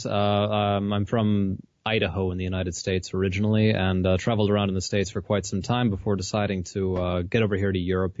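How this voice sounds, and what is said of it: American accent. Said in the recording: “I'm American, clearly, as my accent well betrays.”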